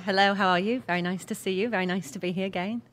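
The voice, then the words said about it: British accent. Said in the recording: “you speak British ... I do speak England ... could you do it? ... how can you have a better accent than me when I was really born there?”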